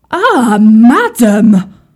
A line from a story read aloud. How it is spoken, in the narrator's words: cried the chief cook of the kitchen